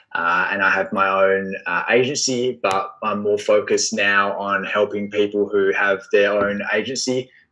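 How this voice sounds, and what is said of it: Australian accent. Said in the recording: “If you can't tell from the accent, I am from Australia”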